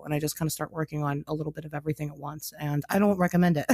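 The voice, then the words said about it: Sick, husky low voice. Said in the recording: “my voice is going to be like sound like shit because I'm I'm flimmy and I'm sick ... it makes you sound like Jessica Rabbit”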